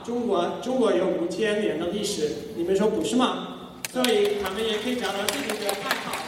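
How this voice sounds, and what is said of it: Non-native accent speaking Chinese. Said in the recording (Chinese): “我们今天不会说这么这么这么奇怪的口音，我们不会用这么奇怪的口音。”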